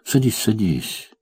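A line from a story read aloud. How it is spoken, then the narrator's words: Insistent repetition. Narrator (Russian): повторил он настойчивее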